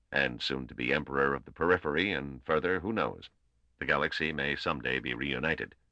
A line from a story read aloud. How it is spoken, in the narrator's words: Weenus added blandly at the pause